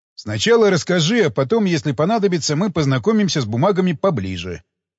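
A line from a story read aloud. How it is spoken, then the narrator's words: Plain. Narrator (Russian): ответил Кондаков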